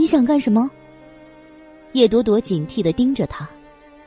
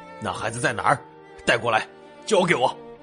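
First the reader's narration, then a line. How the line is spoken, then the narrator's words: Fierce through gritted teeth. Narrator (Chinese): 他咬牙切齿的，突然目光一狠，说道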